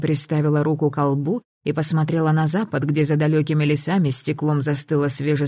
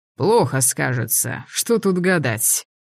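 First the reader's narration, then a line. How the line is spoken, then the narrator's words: Grumbling. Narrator (Russian): проворчал Тенет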